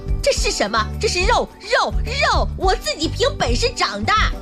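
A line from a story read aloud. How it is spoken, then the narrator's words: Angry roar. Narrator (Chinese): 亚楠愤怒地大声地吼道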